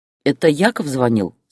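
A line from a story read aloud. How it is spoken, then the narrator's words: Plain. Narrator (Russian): спросил мужчина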